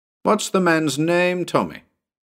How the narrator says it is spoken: grinned and called out

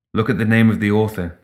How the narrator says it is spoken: Sandeep said

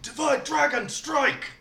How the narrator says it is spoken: yell

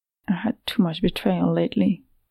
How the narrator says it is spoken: Nedak muttered, trying to justify her action to Eva and herself

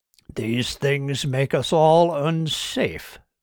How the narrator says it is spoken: purred Kirk

